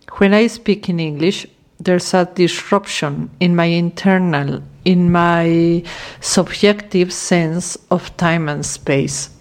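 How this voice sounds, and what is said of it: Non-native English accent, hesitant. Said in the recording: “This is not my mother's tongue... my hesitation while I speak, my accent”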